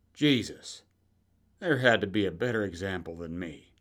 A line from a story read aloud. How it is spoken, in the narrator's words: took a deep breath, sighed it out, and said